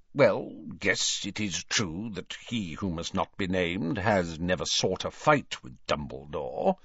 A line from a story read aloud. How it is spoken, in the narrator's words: he muttered grudgingly